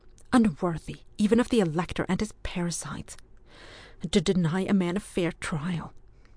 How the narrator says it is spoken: said Ewan hotly

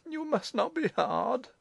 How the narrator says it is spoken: Madame Foucault sobbed

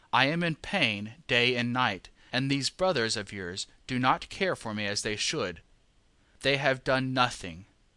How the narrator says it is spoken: he complained bitterly

